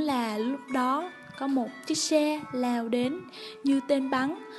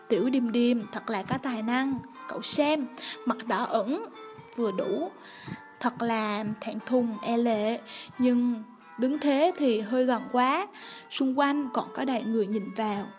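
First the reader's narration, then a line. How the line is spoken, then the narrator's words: Sighing. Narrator (Vietnamese): Nhạc Lai thở dài nói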